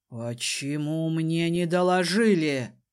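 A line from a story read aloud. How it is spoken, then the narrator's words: Menacing growl. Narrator (Russian): грозно рыкнул Шаранрама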